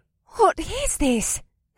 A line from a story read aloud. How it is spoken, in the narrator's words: Faye gasped